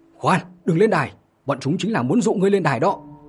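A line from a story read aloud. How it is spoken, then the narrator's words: Urgent powerful shout. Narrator (Vietnamese): vội vàng vận khí hét lớn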